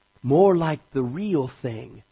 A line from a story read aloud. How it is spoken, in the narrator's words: said the Lord Diggory softly